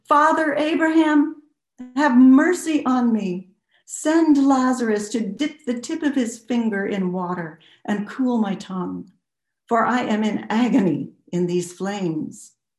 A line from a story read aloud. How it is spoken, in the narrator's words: He called out